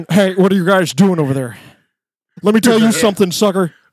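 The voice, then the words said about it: Imitates another person's voice. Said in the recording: “your best rock impression.”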